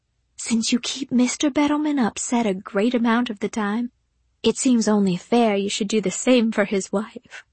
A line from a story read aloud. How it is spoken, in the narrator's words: She whispered back